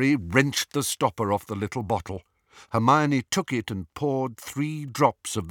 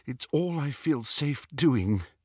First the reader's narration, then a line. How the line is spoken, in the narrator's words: said Hermione shakily